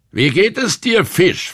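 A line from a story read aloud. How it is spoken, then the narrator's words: Loud question. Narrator (German): fragte laut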